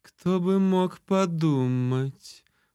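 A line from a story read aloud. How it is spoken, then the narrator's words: Drawling. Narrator (Russian): протянула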